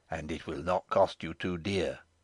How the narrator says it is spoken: in a still lower tone

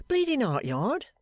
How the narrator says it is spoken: said Pancks with a puff and a snort

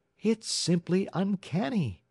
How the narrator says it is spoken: exclaimed one of Kate's neighbors

